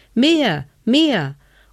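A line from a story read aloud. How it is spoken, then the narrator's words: Child calling. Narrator (German): rief der kleine Hevelmann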